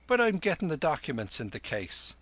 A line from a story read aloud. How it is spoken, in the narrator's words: cried the padre from within